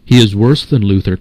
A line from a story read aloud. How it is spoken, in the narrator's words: cried the papists